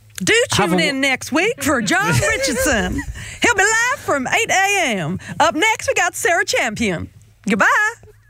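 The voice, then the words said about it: Put-on Texan accent. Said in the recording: “wrapping up this week's show in a Texan accent”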